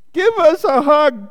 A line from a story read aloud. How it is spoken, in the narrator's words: cried Douglas